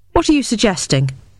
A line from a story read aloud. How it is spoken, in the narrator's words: I asked sharply, my temper rising